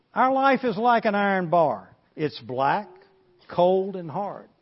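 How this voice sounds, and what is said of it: Southern American accent. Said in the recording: “I got a southern accent”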